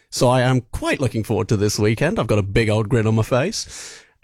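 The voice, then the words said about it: British accent. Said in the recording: “my accent and that I am indeed from the UK”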